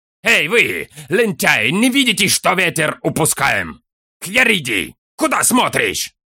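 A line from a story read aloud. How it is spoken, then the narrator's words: Yelling. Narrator (Russian): Заорал Фарнак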